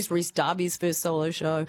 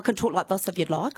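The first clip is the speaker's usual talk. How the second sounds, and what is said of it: Strong New Zealand accent. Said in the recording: “you don't sound as New Zealand-y as I thought you might ... Oh, that's better. ... I really do have a strong New Zealand accent.”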